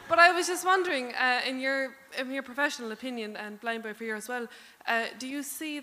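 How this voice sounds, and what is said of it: Canadian voice with Cork Irish accent. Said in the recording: “Is that a Scottish accent? ... No, I'm from Canada and I kind of have a Cork accent now ... So I'm all over the place ... sound like a fucking Viking”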